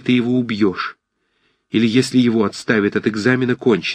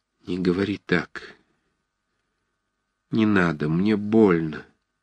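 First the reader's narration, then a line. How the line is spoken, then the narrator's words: Sad, pained. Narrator (Russian): произнес он печально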